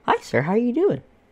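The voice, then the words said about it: Sweet customer-service baby-talk voice. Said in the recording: “customer service voice ... Kind of talks to him like a baby.”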